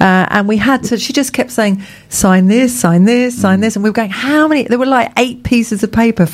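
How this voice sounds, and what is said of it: Usual voice. Nothing is said of it.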